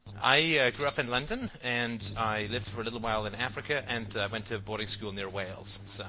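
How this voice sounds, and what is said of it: Slight English accent. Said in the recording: “there was a little bit of English ... it's a tour of the colonies accent”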